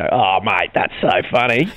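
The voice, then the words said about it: Put-on Australian accent. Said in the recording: “you've got the Australian accent off”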